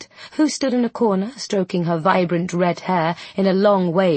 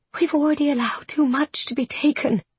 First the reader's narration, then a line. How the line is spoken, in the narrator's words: she whispered